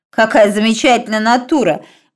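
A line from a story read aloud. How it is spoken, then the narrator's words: Exclamation. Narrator (Russian): воскликнул Стив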